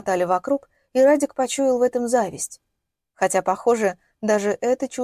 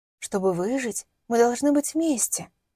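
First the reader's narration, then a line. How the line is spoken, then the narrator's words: Whisper in ear. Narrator (Russian): закончила уже шепотом над его ухом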